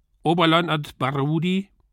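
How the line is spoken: Sudden call, man's voice. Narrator (German): rief plötzlich ein Mann in Uniform

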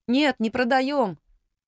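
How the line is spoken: Shouted reply. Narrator (Russian): крикнула Нина в ответ

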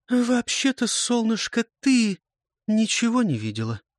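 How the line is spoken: Soft interruption. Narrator (Russian): мягко перебивает Джули

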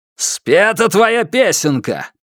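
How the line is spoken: Growl. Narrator (Russian): прорычал

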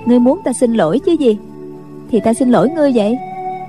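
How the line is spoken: Smiling girl. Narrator (Vietnamese): Cô gái mỉm cười nói

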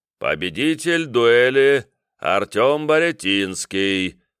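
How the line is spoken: Deep sing-song announcement. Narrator (Russian): басистый нараспев объявил клирик

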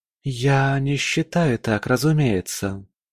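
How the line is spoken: Exhaled. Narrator (Russian): выдохнула Арлен

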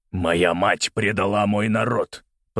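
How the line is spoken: Growled. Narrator (Russian): прорычал Малкольм

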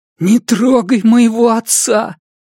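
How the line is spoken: Sobbing, strained. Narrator (Russian): всхлипнул Уэсли, с явным трудом выталкивая слова из горла

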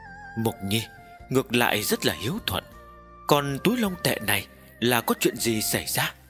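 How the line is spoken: Moved, trembling old woman laughing. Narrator (Vietnamese): Tư bà lộ ra vẻ cảm động, run rẩy cười nói

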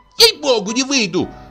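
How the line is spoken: Shriek. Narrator (Russian): взвизгнула Пелагея

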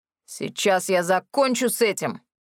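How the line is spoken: Werewolf growl. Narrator (Russian): зарычал оборотень

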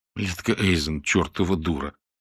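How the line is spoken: Grim reply. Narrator (Russian): мрачно ответила Мира

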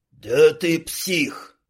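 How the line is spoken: Growled. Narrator (Russian): прорычал Квас

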